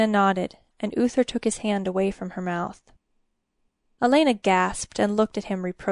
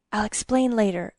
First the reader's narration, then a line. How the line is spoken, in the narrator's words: Uther murmured